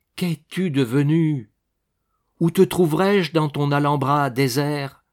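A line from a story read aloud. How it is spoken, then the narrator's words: Exclaiming. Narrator (French): s'écria-t-il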